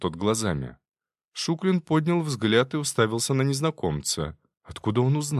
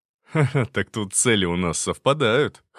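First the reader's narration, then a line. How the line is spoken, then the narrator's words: Short chuckle. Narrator (Russian): хохотнул собеседник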